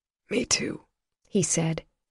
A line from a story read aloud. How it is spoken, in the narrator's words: his voice a rasp